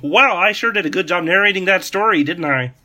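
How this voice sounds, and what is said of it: Kermit the Frog voice impression. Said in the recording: “that's his exact line. That was perfect. I thought it was like he was in the room... Great impression”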